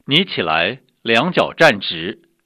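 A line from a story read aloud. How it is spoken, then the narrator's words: Loud. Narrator (Chinese): 大声说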